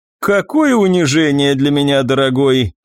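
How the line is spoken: After laughing. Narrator (Russian): отсмеявшись, произнесла Мартина

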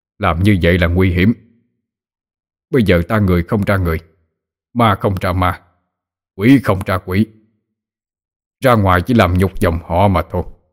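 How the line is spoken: Angry. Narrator (Vietnamese): Ông Hồ tức giận nói

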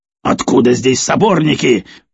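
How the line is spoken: Near shout. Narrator (Russian): почти выкрикнул Тредер

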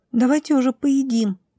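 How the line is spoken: Squeaked. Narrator (Russian): пискнула Милена

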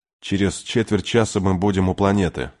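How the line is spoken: Plain. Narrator (Russian): сказал Дач

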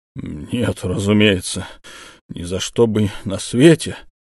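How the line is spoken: Muffled moan. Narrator (Russian): простонал инспектор, закрывая лицо руками

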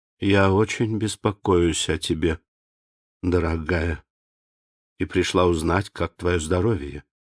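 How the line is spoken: Tender. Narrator (Russian): нежно сказала

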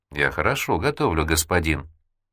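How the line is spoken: Plain. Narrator (Russian): ответила та

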